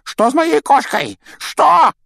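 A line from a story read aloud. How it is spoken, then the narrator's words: Yell. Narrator (Russian): завопил он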